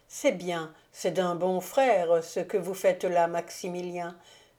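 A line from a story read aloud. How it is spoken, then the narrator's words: Emotional, happy exclamation. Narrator (French): s'écria avec émotion la comtesse, heureuse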